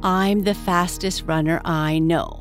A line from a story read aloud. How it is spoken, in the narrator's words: replied Nibbles